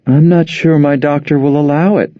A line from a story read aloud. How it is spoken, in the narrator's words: she said feebly